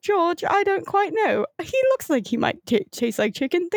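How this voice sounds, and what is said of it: Put-on British Cockney accent. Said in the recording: “I have to go back to British ... a really bad Cockney accent and make it sound more, like Michael Caine”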